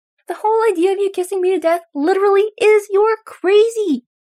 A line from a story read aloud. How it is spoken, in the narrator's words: Derek yells back, knowing that yelling at someone as distraught as Styles is not helpful, but unable to stop himself from doing it